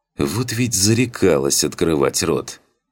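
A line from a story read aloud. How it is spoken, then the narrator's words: Sad muttering huntress. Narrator (Russian): с тоской в голосе пробормотала охотница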